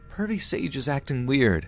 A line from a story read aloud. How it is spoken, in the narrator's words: scream